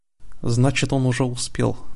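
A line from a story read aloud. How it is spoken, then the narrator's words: Muttered. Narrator (Russian): пробормотала Лайла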